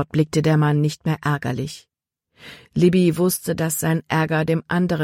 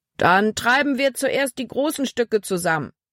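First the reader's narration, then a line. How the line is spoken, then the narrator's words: Calling out. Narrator (German): rief Kapitän Norstad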